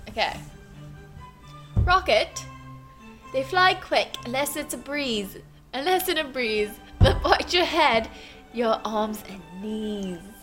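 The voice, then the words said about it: Reads aloud in put-on accent. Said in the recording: “You got to read this with an accent.”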